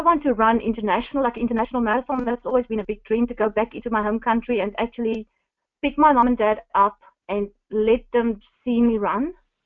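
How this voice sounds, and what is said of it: Non-native English accent. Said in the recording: “my accent, I was worried in the beginning. I'm still struggling to pronounce Naomi's name correct ... even the language was a bit of a barrier”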